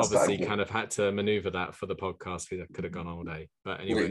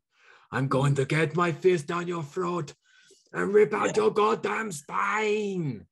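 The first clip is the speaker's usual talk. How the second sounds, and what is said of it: Impression of the character Ben Johnson. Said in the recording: “Ben Johnson, which is probably the most irritating character in there ... Good impression.”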